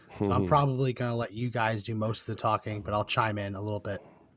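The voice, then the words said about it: Hoarse, weakened voice. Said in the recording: “My voice is starting to come back, and now I'm feeling like I'm losing again.”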